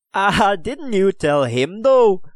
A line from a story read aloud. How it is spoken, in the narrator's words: chuckled Owen O'Gallagher, still gloating over the humiliation of their captor